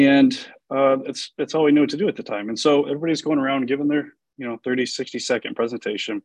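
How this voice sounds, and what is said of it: Usual voice. Nothing is said of it.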